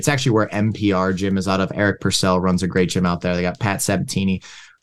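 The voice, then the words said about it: Philadelphia East Coast accent. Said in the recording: “I grew up in Philadelphia... I guess that's on the East Coast... That's that accent right there.”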